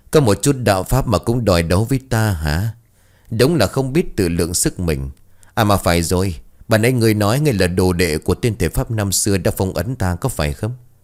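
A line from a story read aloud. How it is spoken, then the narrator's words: Mocking. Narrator (Vietnamese): một câu nói mỉa mai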